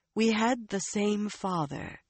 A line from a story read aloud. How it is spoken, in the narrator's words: she said in a calmer voice